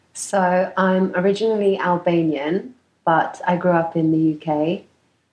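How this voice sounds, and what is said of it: Noticeable foreign accent. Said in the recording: “you're kind of our first foreigner guest ... people will probably be able to tell by your accent.”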